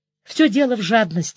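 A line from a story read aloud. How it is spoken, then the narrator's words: Sighing. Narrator (Russian): вздохнул Вовка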